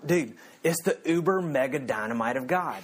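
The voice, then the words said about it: Put-on deep Southern accent. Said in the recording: “he's got a deep southern accent.”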